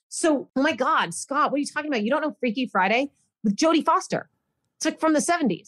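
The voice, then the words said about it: Yelling, loud exasperated voice. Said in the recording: “Why are you yelling at me? ... You're yelling at me.”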